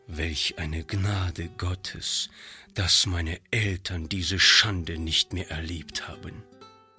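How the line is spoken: Quiet muttering to himself. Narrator (German): sagte Monsieur Joubert leise vor sich hin

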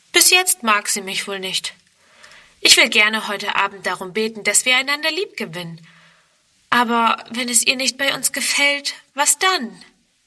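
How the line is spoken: Sighing. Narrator (German): Onkel Friedrich seufzt

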